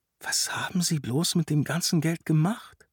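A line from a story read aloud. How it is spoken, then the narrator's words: Whisper. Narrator (German): flüsterte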